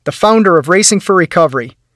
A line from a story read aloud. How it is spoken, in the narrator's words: booms in English